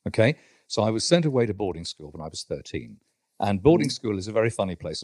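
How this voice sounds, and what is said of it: Posh upper-class English accent. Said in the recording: “your listeners will tell from my voice that I'm from a privileged education”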